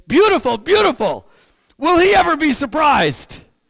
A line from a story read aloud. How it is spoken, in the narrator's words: With revenge in her eyes, she smiled and exclaimed